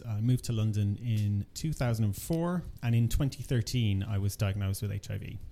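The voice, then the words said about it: Irish accent. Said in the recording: “I originally grew up in Ireland. You can probably tell from the accent.”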